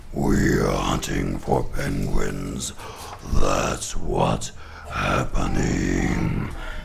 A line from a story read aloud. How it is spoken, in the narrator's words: They growled